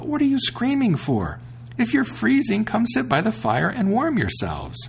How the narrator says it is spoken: he cried out

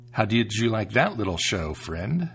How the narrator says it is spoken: the tailor asked

